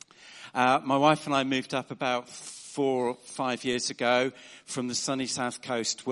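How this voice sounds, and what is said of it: Southern English accent. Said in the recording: “you can probably tell from my accent that I am a newcomer to the north”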